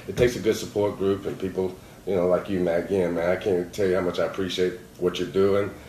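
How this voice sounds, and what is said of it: Alabama Southern accent. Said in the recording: “my accent from Alabama”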